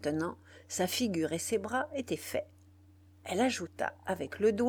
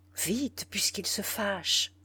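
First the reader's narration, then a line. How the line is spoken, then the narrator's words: Murmur. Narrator (French): murmura-t-elle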